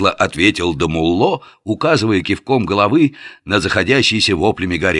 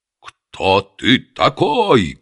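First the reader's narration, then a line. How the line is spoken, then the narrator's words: Loud bark. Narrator (Russian): гаркнул эмир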